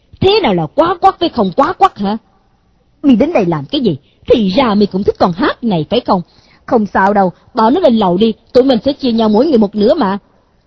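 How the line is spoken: Angry shout. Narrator (Vietnamese): Đà Lồng hắn bèn dậm chân quát

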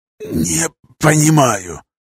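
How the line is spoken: Hoarse, pained rasp. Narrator (Russian): прохрипел я, морщась от боли

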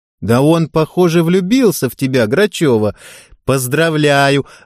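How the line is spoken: Joyful laughter. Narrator (Russian): радостно засмеялась Яна

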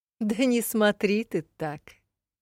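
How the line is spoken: Chuckling. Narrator (Russian): хохотнула Элигия

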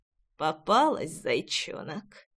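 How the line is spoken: Pleased hoarse whisper. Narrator (Russian): довольно прохрипел парень ей на ушко

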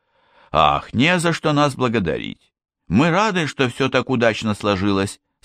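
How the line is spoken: Plain. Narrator (Russian): сказал Макс

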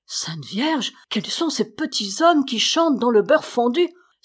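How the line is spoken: Astonished exclamation. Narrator (French): s'écria le léonard stupéfait

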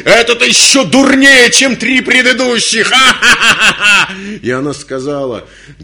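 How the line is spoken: Hysterical laughter. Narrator (Russian): И Мара расхохоталась истерически

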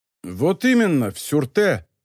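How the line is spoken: Exclaimed. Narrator (Russian): воскликнул Сернин

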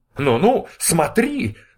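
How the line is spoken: Shouted. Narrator (Russian): закричал Ковалев

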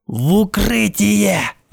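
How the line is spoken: Roared. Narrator (Russian): взревел Сурсон

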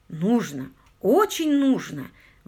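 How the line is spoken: Exclaiming. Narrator (Russian): воскликнул Паркер

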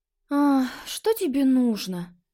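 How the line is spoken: Gloomy question. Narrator (Russian): мрачно спросила попаданка

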